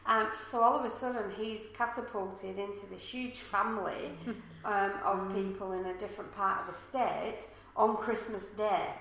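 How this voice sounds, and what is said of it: English accent. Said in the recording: “if you haven't noticed from the accent, I'm not from around here ... I'm not from Australia. Most of my family are back in England.”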